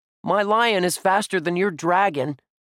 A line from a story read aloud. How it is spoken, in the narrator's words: Josh shouted at Dink